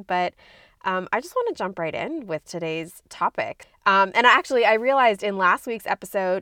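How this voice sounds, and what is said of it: Voice sounds slightly sick. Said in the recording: “If you can hear it in my voice, I am getting over being sick”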